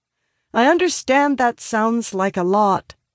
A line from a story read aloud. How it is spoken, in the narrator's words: I continue, raising my voice to be heard over the dissenters